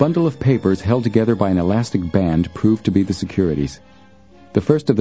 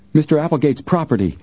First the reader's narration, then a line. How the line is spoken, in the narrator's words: cried out triumphantly